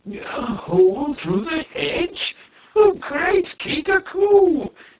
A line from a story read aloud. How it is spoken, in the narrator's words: cried the gray-bearded Kai